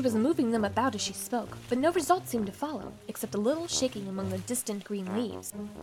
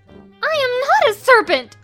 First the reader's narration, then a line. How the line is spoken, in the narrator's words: said Alice indignantly